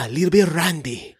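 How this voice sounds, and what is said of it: Heavy Hispanic accent, rolled R's. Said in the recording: “like a heavy Hispanic accent... I got the good Spanish rolling of the R's.”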